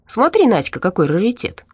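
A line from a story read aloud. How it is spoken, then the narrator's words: Cheerful. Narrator (Russian): весело сказал он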